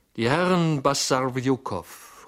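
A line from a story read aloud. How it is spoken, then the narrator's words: Footman's loud announcement. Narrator (German): rief der Lakai mit lauter Stimme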